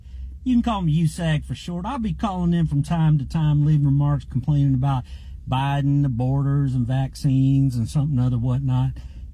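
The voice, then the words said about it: Southern American accent. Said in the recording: “ubiquitous Southern accent guy”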